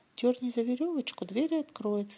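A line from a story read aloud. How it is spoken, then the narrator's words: Plain. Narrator (Russian): сказала бабушка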